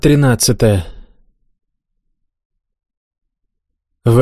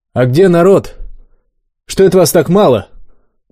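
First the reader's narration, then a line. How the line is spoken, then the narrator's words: Loud inquiry. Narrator (Russian): громко поинтересовался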